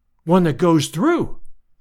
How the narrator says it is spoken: I cried

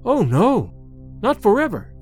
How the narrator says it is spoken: Sedenka cried, then recoiled, as if afraid of her own voice

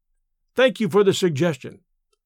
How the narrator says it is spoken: I said

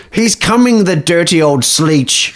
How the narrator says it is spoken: screeched Jeff

